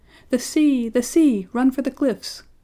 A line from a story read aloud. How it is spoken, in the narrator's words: the princess cried out